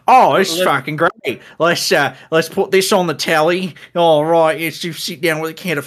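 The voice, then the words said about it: Poor put-on Australian accent. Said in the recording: “my shitty Australian impression”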